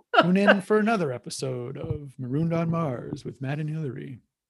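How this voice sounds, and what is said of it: Smooth radio announcer voice. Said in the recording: “That was really nice. ... that was really smooth. ... This is my radio voice.”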